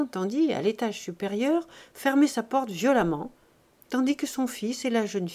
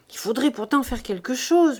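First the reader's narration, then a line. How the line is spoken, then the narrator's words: Murmured. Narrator (French): murmura-t-elle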